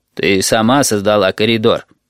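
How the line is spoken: Booming drone. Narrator (Russian): прогудел Little People Bus

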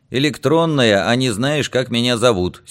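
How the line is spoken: Angry reply. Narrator (Russian): сердито отозвался я

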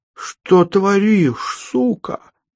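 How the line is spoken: Astonished, forced out. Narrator (Russian): изумленно выдавил из себя Дюша

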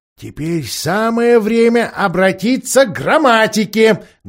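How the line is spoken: Loud. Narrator (Russian): громко сказал доктор Корнелиус

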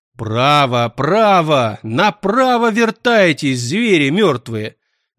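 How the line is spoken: Angry bark. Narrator (Russian): зло гаркнул он на зомби

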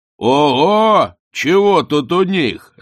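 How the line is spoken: Distant shout. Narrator (Russian): заорал он от баркаса

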